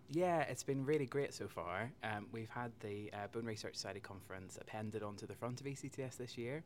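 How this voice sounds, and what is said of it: Northern Irish accent. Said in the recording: “another Northern Ireland accent.”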